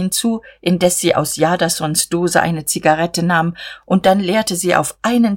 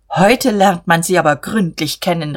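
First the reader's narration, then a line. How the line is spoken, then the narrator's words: Calling out. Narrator (German): rief er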